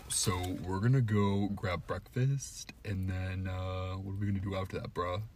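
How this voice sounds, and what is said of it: Put-on stereotypical straight guy voice. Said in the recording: “talking in my straight voice ... oh, so it does sound straight ... Exactly like someone from our school”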